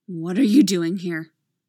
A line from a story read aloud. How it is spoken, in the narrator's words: Laura growls